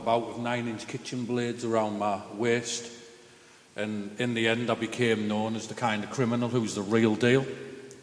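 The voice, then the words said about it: Mixed English-Scottish accent. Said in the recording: “I'm half between England and Scotland, so I'm like a mix, right, in my accent”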